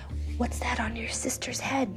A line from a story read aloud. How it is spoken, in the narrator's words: the girl in front of me whispers